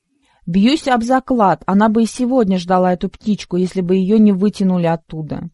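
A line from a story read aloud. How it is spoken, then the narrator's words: Laughing uncle. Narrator (Russian): засмеялся дядя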